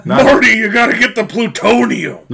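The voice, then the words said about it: Not-shaky-enough Doc Brown character voice. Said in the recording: “Doc Brown impersonation? ... Not shaky enough.”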